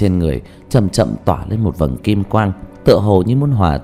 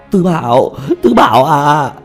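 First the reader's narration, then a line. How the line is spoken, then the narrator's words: Desperate crying out. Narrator (Vietnamese): Bọn Tiểu Mã kêu gào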